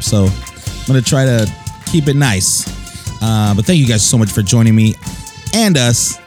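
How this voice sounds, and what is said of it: Hoarse, partly lost voice. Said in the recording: “My voice is a little gone. I screamed a lot on Sunday”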